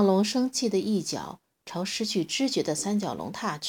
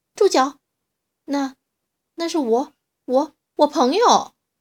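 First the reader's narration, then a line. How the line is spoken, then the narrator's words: Loud shout. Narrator (Chinese): 可诺比 他大叫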